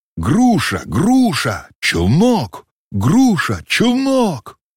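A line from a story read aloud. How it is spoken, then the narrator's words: Crowd shouting together. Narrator (Russian): другие господа важные посетители все вкупе закричали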